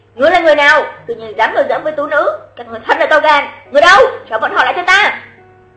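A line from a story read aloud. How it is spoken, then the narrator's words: Furious shout from afar. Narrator (Vietnamese): một người đi từ xa đã cả giận quát lên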